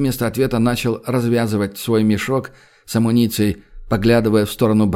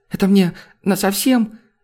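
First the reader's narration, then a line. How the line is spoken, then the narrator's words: Trembling question. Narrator (Russian): дрожащим голосом спросил он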